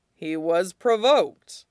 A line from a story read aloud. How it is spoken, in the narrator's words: Piandao said dryly